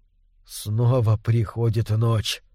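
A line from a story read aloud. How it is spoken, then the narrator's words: Whisper. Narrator (Russian): прошептал он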